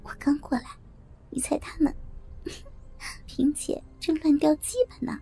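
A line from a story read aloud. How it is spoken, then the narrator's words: Quiet, laughing. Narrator (Chinese): 笑着小声说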